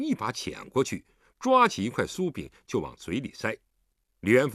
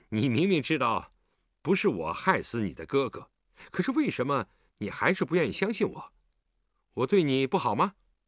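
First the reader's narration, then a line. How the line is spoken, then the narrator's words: Mumbling, mouth full. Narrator (Chinese): 韩冰嘴里塞着点心，含含糊糊地说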